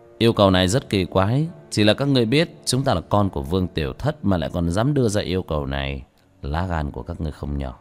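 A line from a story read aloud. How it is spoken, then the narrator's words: Cold sneering. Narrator (Vietnamese): Vương Quân Diệt cười nhạt, không thể không nói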